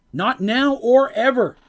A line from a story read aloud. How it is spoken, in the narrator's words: Mercy yelled back